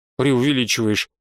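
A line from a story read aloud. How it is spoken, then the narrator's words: Grumbled. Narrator (Russian): буркнула Альда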